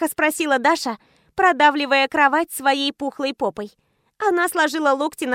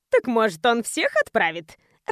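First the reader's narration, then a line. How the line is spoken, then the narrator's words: Cheeky, laughing. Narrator (Russian): развязно предложила Ника и рассмеялась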